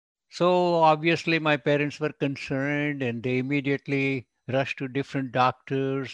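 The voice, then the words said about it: Non-American accent. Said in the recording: “I know I have some accent here. Ophthalmologist is little spoken differently by the people born in the United States”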